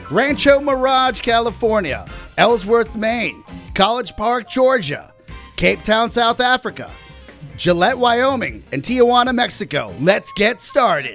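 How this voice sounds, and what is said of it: Radio DJ announcer voice. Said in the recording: “your DJ voice ... My card counter voice.”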